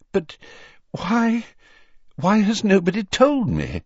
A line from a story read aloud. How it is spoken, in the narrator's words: said the Prime Minister breathlessly